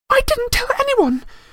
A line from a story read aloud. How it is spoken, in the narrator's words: She shrieked